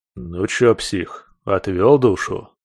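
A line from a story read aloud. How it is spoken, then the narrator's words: Patronizing grumble from behind. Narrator (Russian): Раздалось за спиной покровительственное ворчание ещё одного заклятого врага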